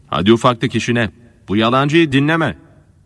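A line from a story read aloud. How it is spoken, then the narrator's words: Several voices shouting. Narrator (Turkish): diye bağırırlar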